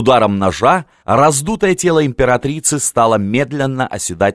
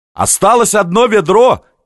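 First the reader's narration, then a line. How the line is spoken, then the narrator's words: Shout. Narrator (Russian): крикнул Емельян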